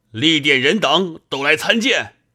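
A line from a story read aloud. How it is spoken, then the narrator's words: Loud shout. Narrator (Chinese): 大叫道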